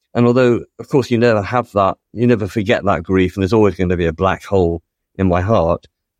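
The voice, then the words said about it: Voice changing with emotion. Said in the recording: “As you can probably hear from my voice changing”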